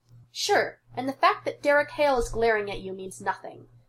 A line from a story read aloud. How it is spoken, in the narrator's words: snorts